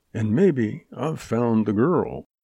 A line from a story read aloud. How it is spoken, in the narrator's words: He added under his breath